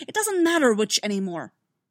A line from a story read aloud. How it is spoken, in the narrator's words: Dooku snapped